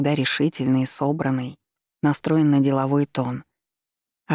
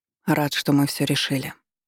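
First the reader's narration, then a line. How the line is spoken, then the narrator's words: Soft. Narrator (Russian): мягко заметил он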